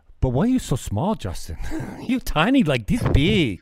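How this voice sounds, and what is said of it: Upscale internationalist accent impression. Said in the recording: “my impressions, foreign accents ... that like uh, internationalist accent ... very upscale”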